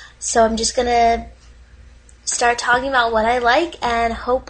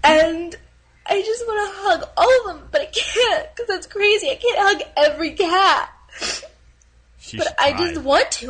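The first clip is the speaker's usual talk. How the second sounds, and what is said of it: Emotional, tearful voice. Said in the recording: “Sorry, I'm getting emotional.”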